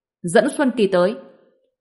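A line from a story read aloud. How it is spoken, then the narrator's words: Sharp shout. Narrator (Vietnamese): Sở Trường Cảnh quát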